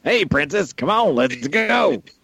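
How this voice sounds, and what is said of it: Robot character voice. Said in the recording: “my impression of L. ... Dead on like impression. ... this random crappy movie robot”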